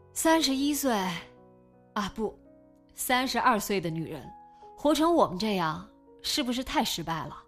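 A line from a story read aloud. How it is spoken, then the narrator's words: Long heavy sigh. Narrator (Chinese): 孙淼仰天长叹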